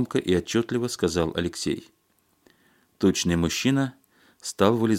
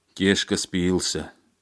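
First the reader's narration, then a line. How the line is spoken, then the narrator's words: Gloomy male voice. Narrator (Russian): мрачно сказал мужчина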